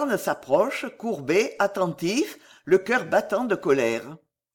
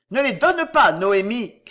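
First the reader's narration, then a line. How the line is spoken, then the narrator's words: Shouted. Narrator (French): crie Louarn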